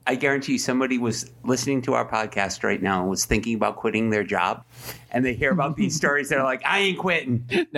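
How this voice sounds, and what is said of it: New England accent. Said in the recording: “Are you making fun of my New England accent? ... I keep hearing beer”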